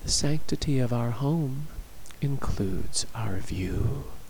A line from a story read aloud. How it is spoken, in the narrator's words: Charla said quietly